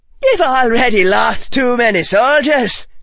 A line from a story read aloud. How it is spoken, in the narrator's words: Finnegan said loudly from across the barrier